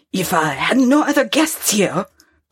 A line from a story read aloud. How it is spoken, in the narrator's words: growled the innkeeper